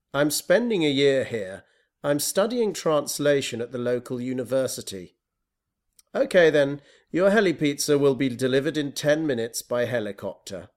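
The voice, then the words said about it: British accent. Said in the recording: “Is your accent Australian ... No, it's British.”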